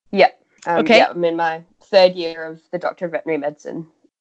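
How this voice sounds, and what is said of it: Australian accent. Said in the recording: “in Sydney. Do you guys hear that accent? ... So you guys hear the accent? She's instantly sounds like 8 times smarter than us.”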